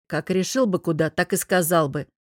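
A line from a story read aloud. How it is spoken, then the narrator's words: Snapping. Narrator (Russian): огрызнулся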